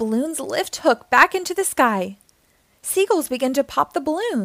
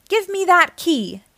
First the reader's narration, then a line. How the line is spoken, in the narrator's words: yells